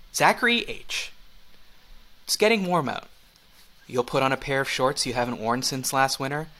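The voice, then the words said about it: Soothing voice. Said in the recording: “I'm going to say this in a soothing voice.”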